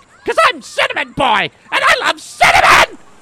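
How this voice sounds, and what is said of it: Yelling loudly. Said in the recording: “Stop yelling. ... Don't don't yell at us.”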